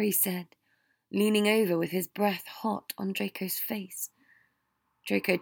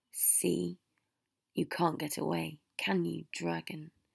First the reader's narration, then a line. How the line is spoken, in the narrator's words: Harry said softly